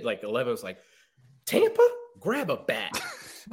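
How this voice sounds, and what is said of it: Imitates another person's voice. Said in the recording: “you do a great 11 impersonation ... You do a fantastic 11 impersonation.”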